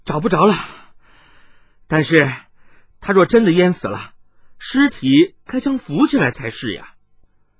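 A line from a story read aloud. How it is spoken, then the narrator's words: Hurried, breathless. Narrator (Chinese): 杨八妹急促而喘着气的声音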